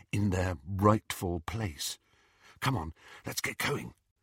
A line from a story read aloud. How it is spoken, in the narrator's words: whispered Hermione